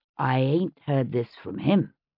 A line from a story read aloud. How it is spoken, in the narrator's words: Cloudtree said, leaning in and lowering his voice